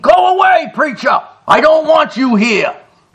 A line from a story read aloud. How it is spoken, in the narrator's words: The old man, hearing Thornton's voice, screamed